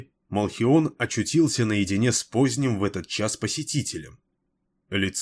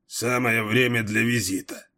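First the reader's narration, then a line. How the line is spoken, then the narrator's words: Cold grumbling. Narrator (Russian): проворчал Малхион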